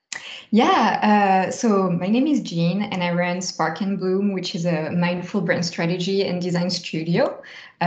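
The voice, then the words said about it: French accent. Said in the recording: “your beautiful French accent”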